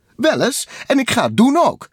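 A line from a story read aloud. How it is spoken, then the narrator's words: Called out. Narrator (Dutch): riep Takel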